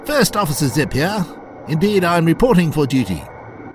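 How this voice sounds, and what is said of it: Posh upper-class accent. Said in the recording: “in a well-to-do accent, as if he'd just had dinner with the Queen”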